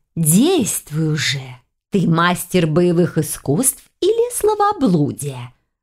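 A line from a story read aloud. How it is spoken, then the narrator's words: Hissed. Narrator (Russian): зашипела на нее жертва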